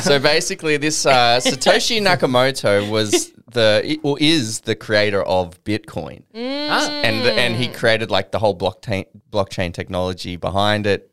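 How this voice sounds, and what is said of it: Put-on accent. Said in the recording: “Just do an accent for us ... Here's where the accent comes in.”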